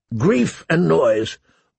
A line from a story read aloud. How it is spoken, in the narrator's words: Mormont grumbled